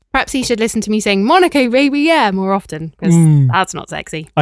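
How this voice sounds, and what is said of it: British accent. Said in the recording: “We Americans are drawn to a British accent”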